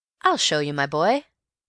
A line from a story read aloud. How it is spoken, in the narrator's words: said Bill